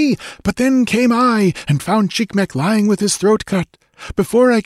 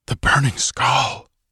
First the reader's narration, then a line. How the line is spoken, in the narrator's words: It was a shuddering whisper of fear from the people of Tecutli